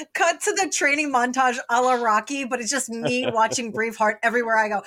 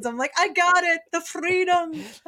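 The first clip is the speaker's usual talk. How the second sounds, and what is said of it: Good put-on Scottish accent. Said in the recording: “That's a good accent.”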